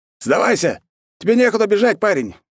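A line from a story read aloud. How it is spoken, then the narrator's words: Shout mid-battle. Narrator (Russian): во время боя крикнул мне один опытный боец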